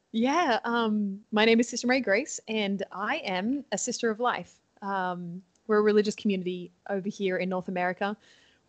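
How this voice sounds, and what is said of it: Australian accent. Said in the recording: “If you haven't picked up on my accent, hopefully my Canadian residency has not taken away my Australian accent ... every now and then a word or two might come out a little funny”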